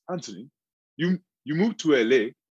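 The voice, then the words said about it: Put-on Nigerian accent. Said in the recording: “in his Nigerian accent”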